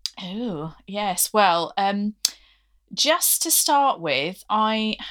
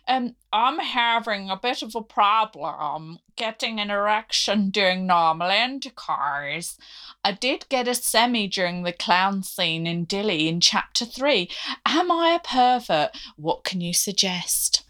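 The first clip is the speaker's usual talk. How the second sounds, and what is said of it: Attempted Northern Irish accent. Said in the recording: “Crulby Crust from County Antrim. I can't do the accent... That's not bad.”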